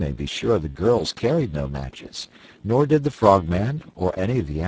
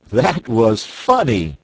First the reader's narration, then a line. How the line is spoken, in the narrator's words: laughed Button-Bright